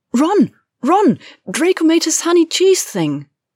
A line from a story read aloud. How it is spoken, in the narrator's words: Hermione said excitedly